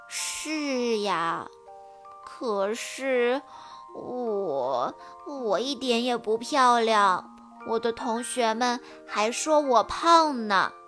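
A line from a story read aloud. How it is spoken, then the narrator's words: Mumbling. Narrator (Chinese): 菲儿嘟嘟囔囔地说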